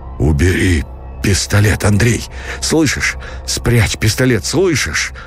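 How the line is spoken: Hoarse repetition. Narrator (Russian): Повторял хрипло Никитин

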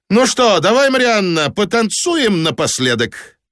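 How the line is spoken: Loud. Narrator (Russian): Фокс громко сказал самоходке

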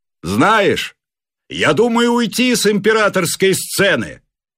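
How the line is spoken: Shouted. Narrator (Russian): крикнул

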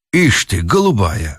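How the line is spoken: Snorting. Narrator (Russian): хмыкнул Пемпф

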